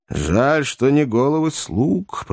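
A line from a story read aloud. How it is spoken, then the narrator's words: Grumbled. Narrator (Russian): проворчал долговязый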